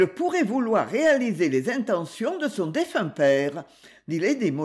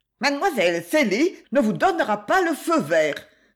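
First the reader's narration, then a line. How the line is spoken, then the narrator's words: Defiant retort. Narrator (French): répliqua-t-elle d'un ton de défi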